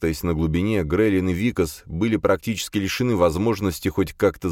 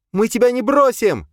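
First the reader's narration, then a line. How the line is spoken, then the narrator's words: Shouted back. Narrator (Russian): прокричала в ответ Никс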